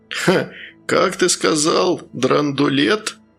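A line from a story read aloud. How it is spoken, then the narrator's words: Laughing. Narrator (Russian): незнакомец рассмеялся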